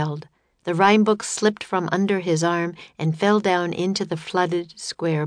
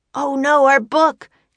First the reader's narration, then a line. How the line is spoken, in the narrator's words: cried Jack